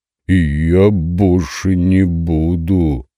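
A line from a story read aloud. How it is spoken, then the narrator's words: Unsure drawl. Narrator (Russian): Не слишком уверенно протянул тролль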